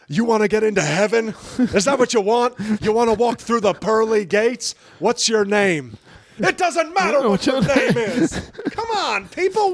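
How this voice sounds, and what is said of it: Impression of The Rock. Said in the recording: “People got a good rock impression.”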